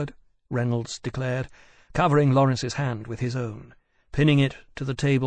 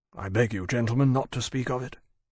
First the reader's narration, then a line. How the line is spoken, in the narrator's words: he said quietly